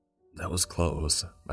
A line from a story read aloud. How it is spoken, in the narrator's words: I sighed